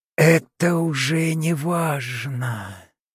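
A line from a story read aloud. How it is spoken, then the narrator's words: Gurgling bloody whisper. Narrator (Russian): прошептала она, и ее пасть наполнилась кровью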